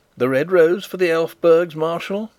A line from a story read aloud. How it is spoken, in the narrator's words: said I, gaily